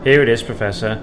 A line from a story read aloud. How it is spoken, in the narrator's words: said Cassandra, calmly